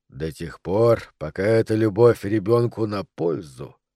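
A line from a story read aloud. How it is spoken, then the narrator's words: More serious tone. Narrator (Russian): проговорил мистер Уотли уже более серьезным тоном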